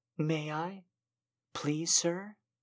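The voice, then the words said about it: Shy, submissive pleading tone. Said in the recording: “The shy acquiescence in my voice”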